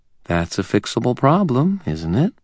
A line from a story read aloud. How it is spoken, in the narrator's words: she asked, her voice teasing